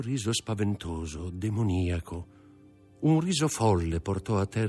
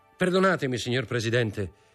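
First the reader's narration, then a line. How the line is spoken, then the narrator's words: Firm voice. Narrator (Italian): disse con voce ferma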